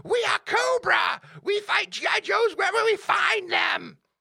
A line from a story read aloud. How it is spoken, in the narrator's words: Cobra Commander would scream